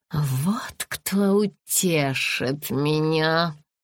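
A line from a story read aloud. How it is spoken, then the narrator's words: Hissed. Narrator (Russian): прошипела она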